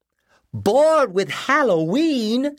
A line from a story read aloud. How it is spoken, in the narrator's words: yelped